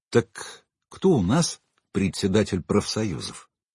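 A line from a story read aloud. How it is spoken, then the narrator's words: Quiet repetition. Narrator (Russian): тихо повторил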